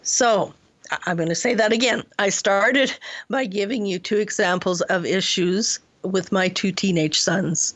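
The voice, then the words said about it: Hoarse, croaky throat. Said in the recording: “I have a frog in my throat this morning and it doesn't want to leave me alone.”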